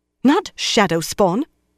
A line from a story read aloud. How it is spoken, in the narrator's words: Moiraine snapped